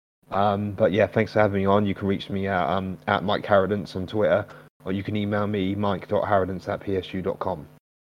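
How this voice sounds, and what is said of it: Hoarse, sore-throated voice. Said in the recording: “Sorry about my throat and everything ... if you haven't been able to really hear what I'm saying properly ... It's just been a bit of a bastard, this throat has ... hopefully next time I'm on, my throat will be a bit better.”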